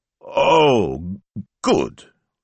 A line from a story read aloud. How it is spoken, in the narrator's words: choked Signor Speranza